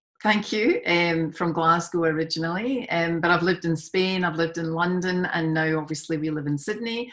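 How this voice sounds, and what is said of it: Scottish accent. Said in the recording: “you can obviously tell I'm from Scotland. ... I love the accent.”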